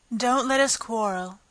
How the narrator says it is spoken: the White Queen said in an anxious tone

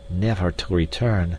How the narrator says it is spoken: muttered D'Arnot

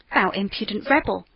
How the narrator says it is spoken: exclaimed the judge

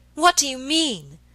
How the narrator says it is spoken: she cried suddenly after a pause of some moments

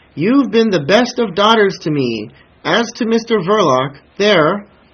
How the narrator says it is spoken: screamed the old woman, earnestly above the noise

